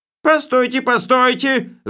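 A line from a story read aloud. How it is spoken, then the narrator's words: Yell. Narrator (Russian): заорал он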